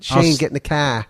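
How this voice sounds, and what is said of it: Put-on Boston accent. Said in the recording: “You could do that for any accent, like a Boston accent.”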